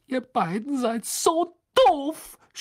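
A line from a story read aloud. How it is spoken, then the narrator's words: Angry shout. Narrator (German): schrie sie und stampfte mit dem Fuß auf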